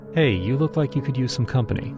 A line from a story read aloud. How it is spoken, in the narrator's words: she said, her tone light and inviting